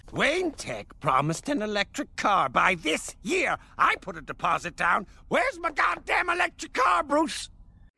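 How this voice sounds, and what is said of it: Mark Hamill Joker impression. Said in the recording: “the way Alan Tudyk does it is, like, it's like doing an impression of Mark Hamill, but it's a little better at times”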